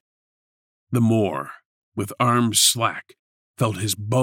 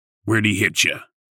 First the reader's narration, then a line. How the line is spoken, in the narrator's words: Chris asked